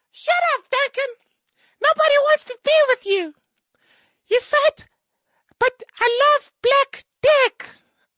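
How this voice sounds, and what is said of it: Imitates another person's voice. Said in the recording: “my impersonation of Nina Hasty”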